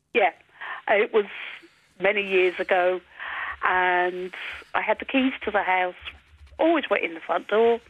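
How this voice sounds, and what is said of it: English-influenced accent. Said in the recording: “with your accent, you've obviously spent some time in England”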